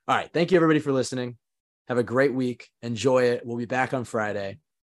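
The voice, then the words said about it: Hoarse voice. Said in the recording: “It's a little better when my voice is hoarse, though.”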